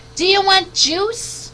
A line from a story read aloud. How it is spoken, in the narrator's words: Mom screamed